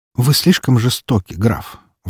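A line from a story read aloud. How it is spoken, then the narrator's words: Sighing. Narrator (Russian): вздохнула девушка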